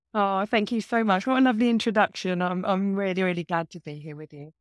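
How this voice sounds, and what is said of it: English accent, east of England. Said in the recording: “you have a lovely accent ... I'm from the UK, so I'm from east of England. I'm about 70 miles kind of northeast of London”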